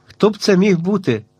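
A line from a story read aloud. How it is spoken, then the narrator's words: Surprised exclamation. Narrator (Ukrainian): вигукнув здивовано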